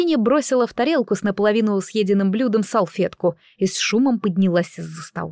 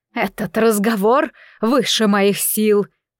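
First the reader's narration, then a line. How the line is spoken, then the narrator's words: Through gritted teeth. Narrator (Russian): процедила сквозь зубы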